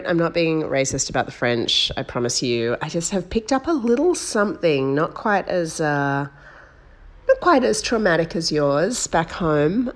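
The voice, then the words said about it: Husky, slightly hoarse voice. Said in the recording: “I've got a bit of a frog in my throat. ... I've just got a bit of a, you know, a little bit of a husky voice.”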